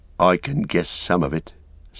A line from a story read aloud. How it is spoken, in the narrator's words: said Sam gloomily